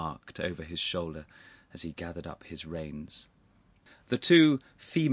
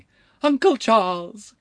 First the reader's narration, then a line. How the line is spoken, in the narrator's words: cried the elder